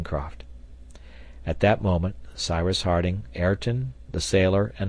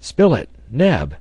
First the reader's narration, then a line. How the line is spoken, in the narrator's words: cried the engineer